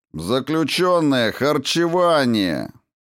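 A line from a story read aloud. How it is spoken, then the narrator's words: Loud loudspeaker announcement. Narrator (Russian): громко произнес репродуктор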